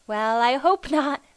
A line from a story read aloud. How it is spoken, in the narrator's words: laughed Elnora